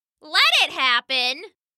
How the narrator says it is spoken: someone hollered

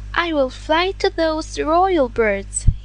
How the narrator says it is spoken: he exclaimed

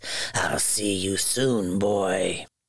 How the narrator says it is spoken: hissed

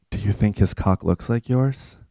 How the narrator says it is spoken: Rye whispered

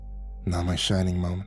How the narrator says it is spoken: Jack muttered

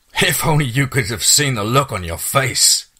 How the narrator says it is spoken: Steve wheezed between laughs

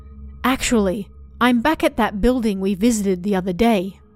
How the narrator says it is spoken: he said

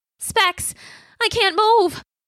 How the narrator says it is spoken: his voice panicky

